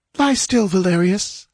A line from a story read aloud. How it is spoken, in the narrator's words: begged the girl